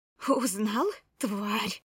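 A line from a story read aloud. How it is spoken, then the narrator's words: Hissing like enraged cat. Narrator (Russian): зашипела взбешенной кошкой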